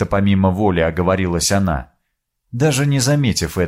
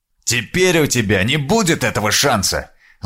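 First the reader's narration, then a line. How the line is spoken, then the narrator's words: Angry shout. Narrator (Russian): зло крикнул ей посол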